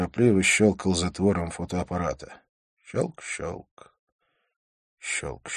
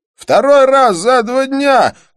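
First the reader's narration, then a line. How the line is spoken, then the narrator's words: Shouted after someone. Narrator (Russian): крикнул Хорст мне вслед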